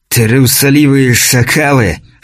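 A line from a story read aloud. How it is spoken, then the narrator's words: Angry hoarse rasp. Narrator (Russian): в сердцах прохрипел скрученный Эрмаккан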